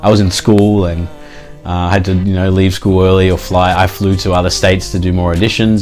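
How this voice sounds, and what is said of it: Australian accent. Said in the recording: “I can tell from your accent you're not from the U.S.”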